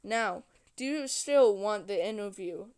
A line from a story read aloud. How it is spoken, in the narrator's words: the vampire asked